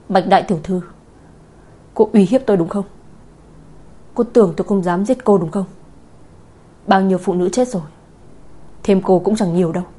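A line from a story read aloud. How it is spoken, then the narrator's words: Angry. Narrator (Vietnamese): Nam Cung Thiên Ân tức giận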